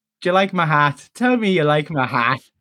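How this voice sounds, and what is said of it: Put-on Irish accent. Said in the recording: “his flawless Irish accent for me in that film”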